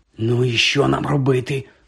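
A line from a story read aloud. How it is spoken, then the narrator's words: Whispered into ear. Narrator (Ukrainian): прошепотів Рон йому на вухо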